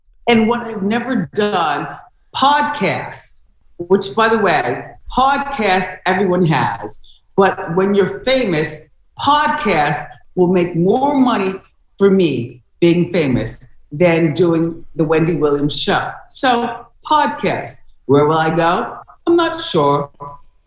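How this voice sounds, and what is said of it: Affected, posh British-like accent. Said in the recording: “It's almost like she is trying to do like a British affect or something. It's weird. ... Sounds like a wealthy accent. ... Not necessarily from over the pond, but money.”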